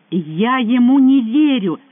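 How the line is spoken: Girl's passionate exclamation. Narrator (Russian): страстно воскликнула девушка

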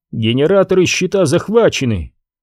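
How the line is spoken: Pleased. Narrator (Russian): довольным тоном ответил Лев

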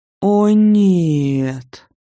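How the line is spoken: Groaning. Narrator (Russian): простонала я

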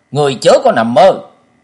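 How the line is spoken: Indignant loud shout. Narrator (Vietnamese): Vì Kế Hoàng hết sức công phẫn, chàng hét to lên một tiếng

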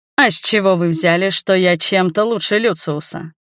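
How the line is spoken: Young prince, mocking question. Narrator (Russian): насмешливо спросил младший принц

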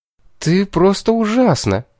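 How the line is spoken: Joyful. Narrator (Russian): сказала она радостно

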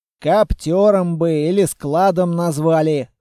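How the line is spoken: Snorting. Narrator (Russian): хмыкнул Толяныч

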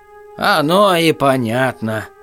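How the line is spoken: Chuckling. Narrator (Russian): хохотнул повар-раздатчик

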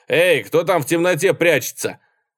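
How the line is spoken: Shout. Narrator (Russian): Он крикнул

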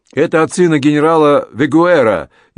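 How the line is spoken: Shouted again. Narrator (Russian): еще раз закричал он

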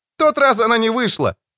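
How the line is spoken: Cheerful shout. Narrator (Russian): весело прокричал он ему

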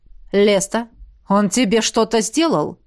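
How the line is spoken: Deadly cold question. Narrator (Russian): вопрос полуконтрактника, заданный убийственно-холодным тоном

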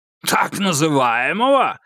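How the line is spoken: Barked. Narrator (Russian): рявкнул Клеменс

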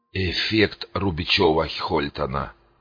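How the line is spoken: Hoarse. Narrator (Russian): хрипло произнес Дитрих

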